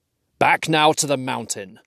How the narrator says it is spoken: cried Thorin

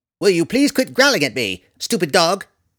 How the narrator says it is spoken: Tifonus snapped at the yellow canine

